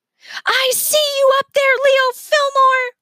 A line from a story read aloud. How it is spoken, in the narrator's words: Miss Sparks screamed up at the head poking over the edge of the roof